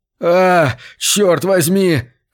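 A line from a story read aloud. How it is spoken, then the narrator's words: Shouting. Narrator (Russian): кричал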